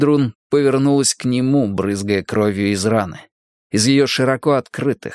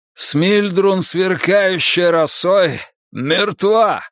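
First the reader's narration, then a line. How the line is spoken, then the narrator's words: Hoarse shout. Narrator (Russian): крикнул он хрипло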